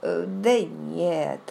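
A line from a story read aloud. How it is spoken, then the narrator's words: Drawling. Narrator (Russian): протянул он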